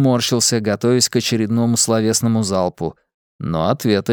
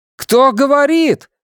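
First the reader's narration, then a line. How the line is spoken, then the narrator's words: Shouted into wind. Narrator (Russian): крикнул я на ветер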